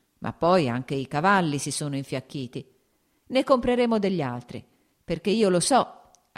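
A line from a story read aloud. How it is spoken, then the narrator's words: Laughing. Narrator (Italian): aggiunse ridendo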